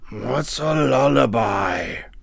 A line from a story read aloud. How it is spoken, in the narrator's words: asked the dragon drowsily